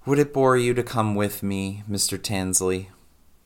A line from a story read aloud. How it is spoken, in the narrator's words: with a sigh and said